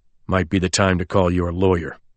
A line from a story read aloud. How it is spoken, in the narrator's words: Colborne told me coldly